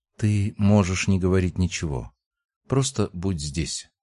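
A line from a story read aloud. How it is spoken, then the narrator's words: Barely audible. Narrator (Russian): сказала, едва слышно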